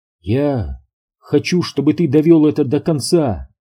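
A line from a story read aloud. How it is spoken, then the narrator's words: Soft, gentle. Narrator (Russian): мягко сказала Рут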